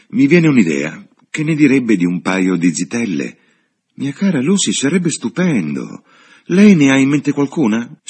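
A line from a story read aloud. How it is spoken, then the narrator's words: Exclaiming. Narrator (Italian): esclamò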